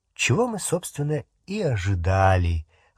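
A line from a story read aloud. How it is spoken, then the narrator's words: Sigh. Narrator (Russian): вздохнула она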